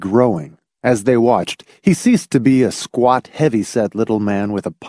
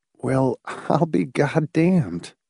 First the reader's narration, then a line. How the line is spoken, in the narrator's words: Hamilton said softly